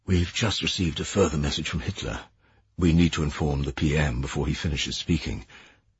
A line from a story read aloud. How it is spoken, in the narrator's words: He said quietly